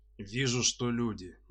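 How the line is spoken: Loud deep bass. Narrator (Russian): ничуть не понижая голоса, пробасил тролль

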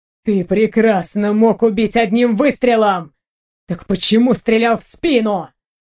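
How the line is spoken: Angry growl. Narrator (Russian): Зло прорычал Готьер

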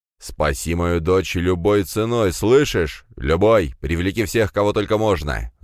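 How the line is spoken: Emperor's growl. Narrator (Russian): зарычал император

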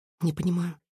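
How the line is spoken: Whispered. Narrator (Russian): прошептала

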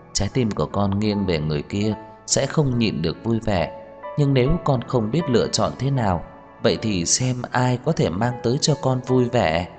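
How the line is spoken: Gentle smiling voice. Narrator (Vietnamese): Ân Nguyệt Dung mỉm cười, dịu dàng nói

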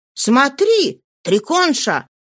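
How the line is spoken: Exclaiming. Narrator (Russian): Симонна воскликнула

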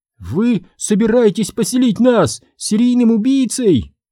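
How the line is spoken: Squeaky. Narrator (Russian): пискнула Сабрина

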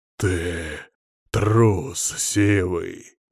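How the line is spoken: Convincing feigned growl. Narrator (Russian): прорычал я почти натурально

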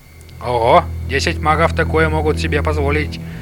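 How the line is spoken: Grumble. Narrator (Russian): проворчал

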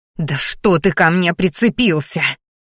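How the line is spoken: Angry hiss near ear. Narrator (Russian): послышалось злобное шипение над ухом

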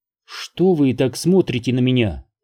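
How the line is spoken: Plain. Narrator (Russian): спросила она

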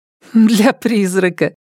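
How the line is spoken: Giggle. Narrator (Russian): хихикнула просвещенная сестра

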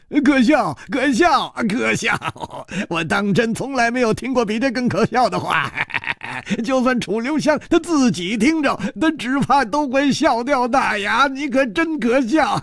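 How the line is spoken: Laughing loudly, mocking. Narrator (Chinese): 冷秋魂哈哈大笑

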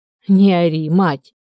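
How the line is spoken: Groaning. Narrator (Russian): простонал друг

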